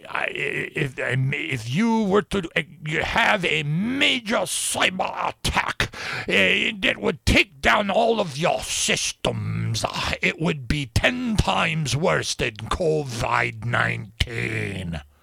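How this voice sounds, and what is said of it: Put-on German accent. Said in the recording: “in his German accent”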